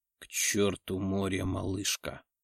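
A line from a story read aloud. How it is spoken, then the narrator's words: Growling. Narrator (Russian): прорычал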